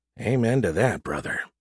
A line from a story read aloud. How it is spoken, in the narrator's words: he muttered